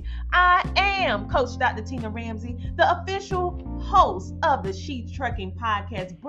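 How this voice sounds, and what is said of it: Country twang accent. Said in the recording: “this country twang”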